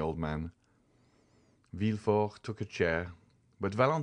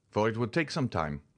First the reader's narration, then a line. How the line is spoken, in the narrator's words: said Villefort impatiently